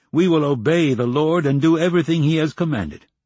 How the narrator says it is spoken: the people shouted

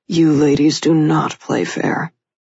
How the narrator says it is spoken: he grumbled good-naturedly

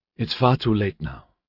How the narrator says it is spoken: he said wearily

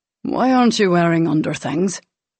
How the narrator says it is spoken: She sighed

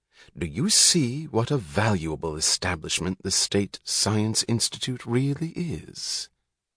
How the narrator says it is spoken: said Ferris, suddenly dropping his voice

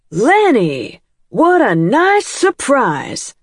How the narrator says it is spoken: she said in a foghorn voice that would have sent birds into the air

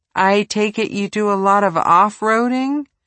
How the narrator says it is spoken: Ramos chuckled

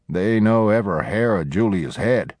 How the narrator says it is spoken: Penny chuckled

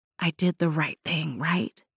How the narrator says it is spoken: She whispered

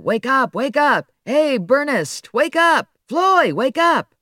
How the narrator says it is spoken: reporters would … yell at the television set

